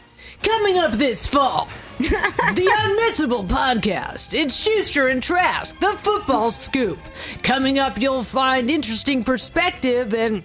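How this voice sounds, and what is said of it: Dramatic promo announcer voice. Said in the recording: “Oh, my throat hurts doing ... this ... Doing that really well ... Doing the voice”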